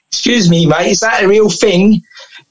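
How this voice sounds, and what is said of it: Put-on London accent. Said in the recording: “this is my best London accent I'm doing here”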